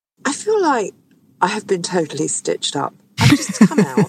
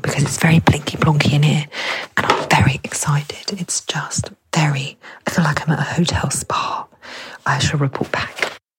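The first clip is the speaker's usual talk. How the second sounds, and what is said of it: Whispering. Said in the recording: “I'm whispering”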